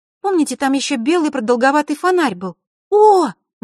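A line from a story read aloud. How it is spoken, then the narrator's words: Sudden exclamation. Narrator (Russian): неожиданно воскликнула она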